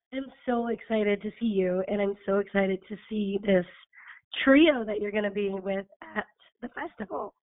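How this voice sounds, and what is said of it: Hoarse voice. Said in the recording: “I'm sorry you're hoarse. ... it's getting better. It was it was a little rougher yesterday”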